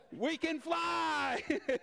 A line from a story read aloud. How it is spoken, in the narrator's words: they shouted back